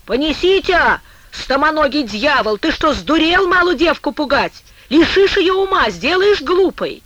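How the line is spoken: Mother shouting angrily. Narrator (Russian): мать закричит на Ворзю

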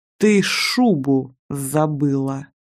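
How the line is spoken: Almost through gritted teeth. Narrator (Russian): чуть ли не процедил Рогозин

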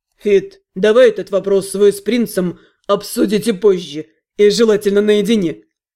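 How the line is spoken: Smirking snort. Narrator (Russian): Хмыкнул Кир, все с той же усмешкой

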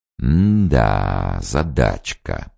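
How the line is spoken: Drawn-out. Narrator (Russian): протянул обер-лейтенант

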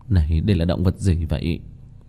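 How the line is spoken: Dazed muttering. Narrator (Vietnamese): Kim Mẫn Cơ sắc mặt ngây ngẩn lẩm bẩm

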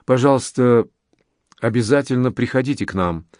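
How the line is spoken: Beautiful female voice. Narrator (Russian): проговорила она своим удивительно прекрасным голосом

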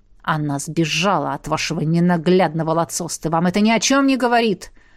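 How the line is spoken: Muffled growl, suppressed rage. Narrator (Russian): Глухо прорычал, стараясь, чтобы голос не выдавал ту степень бешенства, которая меня обуяла

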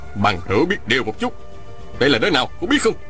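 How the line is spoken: Shout. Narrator (Vietnamese): Phùng Nam Địch quát lên

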